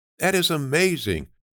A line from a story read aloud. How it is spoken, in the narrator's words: Ksenia exclaimed